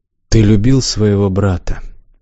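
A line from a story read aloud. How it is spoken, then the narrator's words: Muttering. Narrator (Russian): пробормотал Развияр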